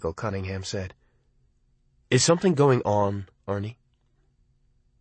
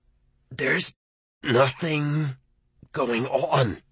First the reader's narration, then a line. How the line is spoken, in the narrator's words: he said through clenched teeth